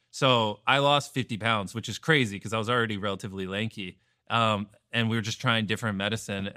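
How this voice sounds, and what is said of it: Sick, slightly off voice. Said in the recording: “my voice sounds a little off right now, because I just got the flu”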